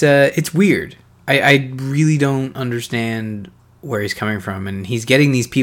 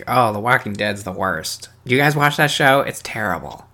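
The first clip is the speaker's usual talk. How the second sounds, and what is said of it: Imitates another person's voice. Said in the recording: “I don't actually know what he sounds like, but that's my impression.”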